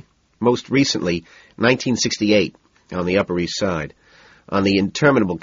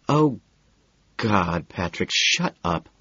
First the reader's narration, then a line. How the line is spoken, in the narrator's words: she says, her voice thick and drugged